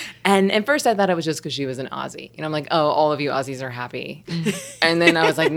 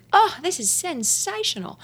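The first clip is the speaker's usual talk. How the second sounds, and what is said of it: Bad imitation Australian accent. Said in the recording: “my bad Australian accent”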